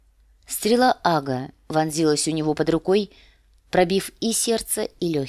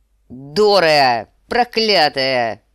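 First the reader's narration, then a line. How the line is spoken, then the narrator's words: Roaring. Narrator (Russian): взревел сир Джорах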